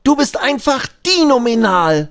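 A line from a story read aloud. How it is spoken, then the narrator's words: Exclaims. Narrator (German): ruft Abi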